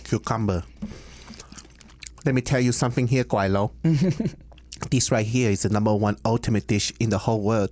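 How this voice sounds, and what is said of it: Put-on Americanized Chinese accent. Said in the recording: “It's like an Americanized Chinese accent. ... Cantonese from Hong Kong. Like that's kind of how it sounds like.”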